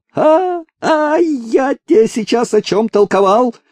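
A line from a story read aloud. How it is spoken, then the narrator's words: Sudden yell. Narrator (Russian): вдруг заорал Кузьма на Степана Прокоповича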